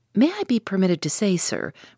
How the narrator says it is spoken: replied Conseil

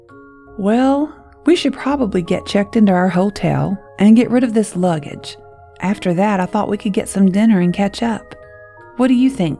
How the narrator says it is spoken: Nick asked

